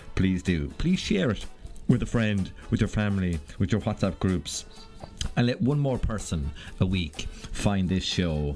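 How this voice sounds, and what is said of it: West of Ireland accent. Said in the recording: “how West of Ireland my accent really is”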